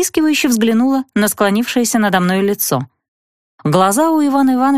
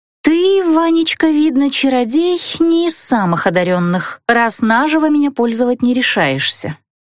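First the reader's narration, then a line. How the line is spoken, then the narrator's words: Mocking drawl. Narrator (Russian): протянула глумливо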